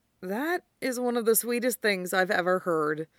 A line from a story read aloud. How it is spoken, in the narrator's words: Eugene sighed